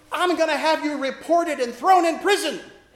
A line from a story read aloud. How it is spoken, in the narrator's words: she yelled